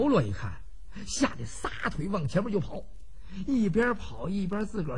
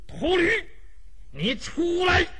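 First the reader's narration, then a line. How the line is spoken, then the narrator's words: Loud shout. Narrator (Chinese): 周通冲着屋子里边大喊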